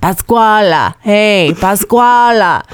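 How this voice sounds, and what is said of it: Gruff male voice, Italian-sounding accent. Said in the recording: “in a gruff male voice ... Is that a, uh, uh, an Italian accent?”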